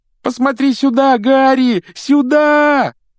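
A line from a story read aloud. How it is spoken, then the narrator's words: Desperate yell. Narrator (Russian): отчаянно завопил Колин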